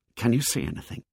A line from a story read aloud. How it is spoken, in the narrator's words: them whispering